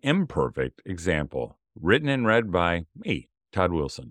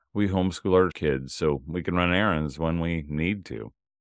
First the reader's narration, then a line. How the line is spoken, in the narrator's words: I said with a sigh